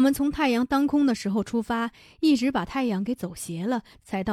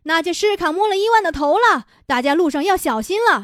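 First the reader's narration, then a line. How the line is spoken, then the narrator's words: Loud shouting. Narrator (Chinese): 伊芙琳大声地叫着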